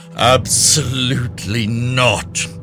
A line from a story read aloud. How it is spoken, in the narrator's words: the bailiff thundered suddenly, in a voice that sounded not quite like her own